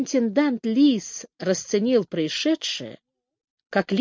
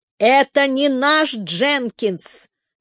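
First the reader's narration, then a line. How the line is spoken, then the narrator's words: Howled. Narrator (Russian): взвыл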